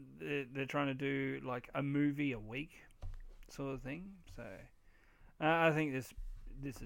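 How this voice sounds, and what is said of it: Usual voice. Nothing is said of it.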